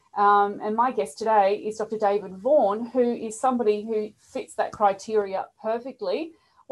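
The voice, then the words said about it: Australian accent. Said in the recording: “you may guess from the accents here, I'm from Melbourne, Australia”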